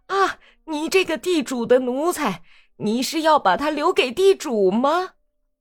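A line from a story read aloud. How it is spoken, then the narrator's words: Loud clamoring crowd. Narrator (Chinese): 这些家伙哇啦哇啦的大声嚷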